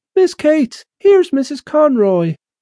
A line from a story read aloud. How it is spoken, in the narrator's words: Lily called out